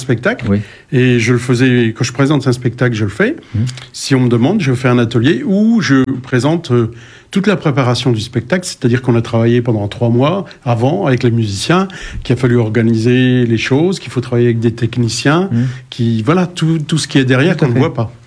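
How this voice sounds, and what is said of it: Slightly clipped non-Parisian French accent. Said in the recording (French): “il a un accent un peu pointu, pas parisien”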